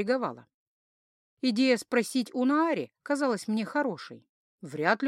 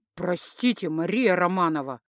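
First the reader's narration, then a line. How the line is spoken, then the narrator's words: Indignant. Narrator (Russian): выдал возмущенно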